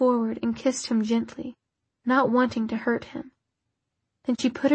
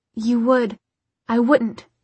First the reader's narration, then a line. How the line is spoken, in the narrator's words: she said sharply